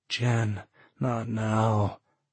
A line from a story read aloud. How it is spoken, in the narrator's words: sighed